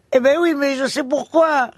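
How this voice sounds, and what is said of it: Imitated south-west French accent. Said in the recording (French): “il a un accent du sud-ouest”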